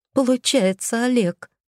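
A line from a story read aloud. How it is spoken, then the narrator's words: Nervous laugh. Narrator (Russian): нервно рассмеялась я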